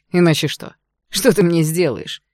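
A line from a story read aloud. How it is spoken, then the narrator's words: Hoarse laughter. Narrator (Russian): Хрипло рассмеялся Игнат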